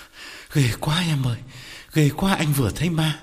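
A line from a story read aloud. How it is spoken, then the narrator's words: Breathless reply. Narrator (Vietnamese): thở hổn hển đáp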